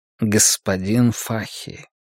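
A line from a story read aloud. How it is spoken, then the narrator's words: Quiet call. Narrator (Russian): тихо окликнул Каз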